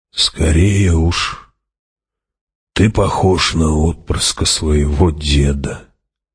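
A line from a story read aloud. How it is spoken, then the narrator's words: Hoarse old voice. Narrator (Russian): хриплым стариковским голосом ответил Хават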